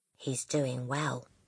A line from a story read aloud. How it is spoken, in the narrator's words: she whispered